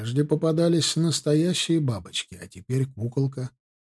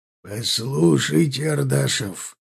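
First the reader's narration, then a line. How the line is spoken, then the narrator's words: Growl through teeth. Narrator (Russian): прорычал он сквозь зубы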